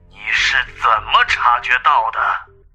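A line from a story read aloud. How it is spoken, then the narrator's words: Through gritted teeth, phone. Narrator (Chinese): 电话中传来了咬牙切齿的声音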